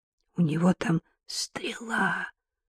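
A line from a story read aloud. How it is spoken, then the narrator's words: Whispered. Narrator (Russian): прошептала Маша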